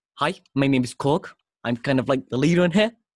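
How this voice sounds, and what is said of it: Put-on New Zealand accent. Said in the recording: “This is my terrible New Zealand accent.”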